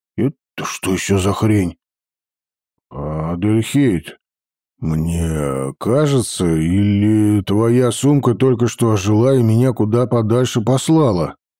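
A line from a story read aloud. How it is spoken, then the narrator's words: Uncertain question. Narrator (Russian): неуверенно спросил я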